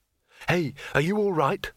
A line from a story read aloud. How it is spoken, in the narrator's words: said Rincewind urgently